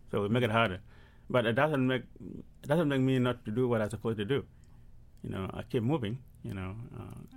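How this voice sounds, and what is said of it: Non-native English accent. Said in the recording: “It's tough for people to understand your language ... you think you are speaking a good English ... especially for my accent.”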